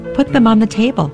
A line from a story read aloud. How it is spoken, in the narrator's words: I said, and my voice had a tremble in it